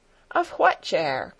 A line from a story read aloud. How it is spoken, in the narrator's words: called Peter back in answer, in a morose tone of voice